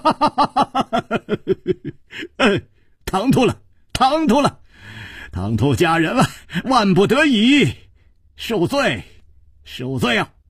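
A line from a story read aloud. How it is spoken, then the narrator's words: Laughing. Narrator (Chinese): 楚留香 笑道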